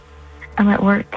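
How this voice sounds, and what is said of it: Speaking very softly, hushed. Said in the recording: “Are you in a library? ... you're talking very softly.”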